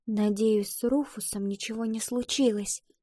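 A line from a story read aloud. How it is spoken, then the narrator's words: Whisper. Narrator (Russian): прошептала Ива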